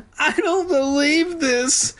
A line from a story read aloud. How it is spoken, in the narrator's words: Sheena wailed